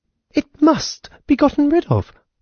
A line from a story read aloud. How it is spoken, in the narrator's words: cried the sister